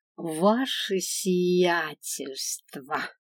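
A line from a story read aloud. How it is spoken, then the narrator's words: Mocking drawl. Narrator (Russian): издевательски протянула я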